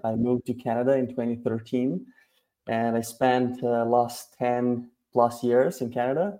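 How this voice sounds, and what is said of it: Non-native English accent. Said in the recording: “you can probably tell by my accent that English is not my language. So I'm an immigrant.”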